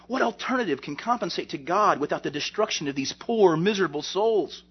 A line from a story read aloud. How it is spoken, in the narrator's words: The preacher exclaimed